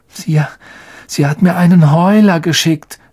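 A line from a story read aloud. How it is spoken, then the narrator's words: Weak, tired voice. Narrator (German): sagte Ron mit matter Stimme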